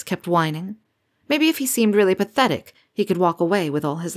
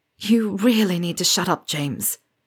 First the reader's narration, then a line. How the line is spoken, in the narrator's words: Remus groaned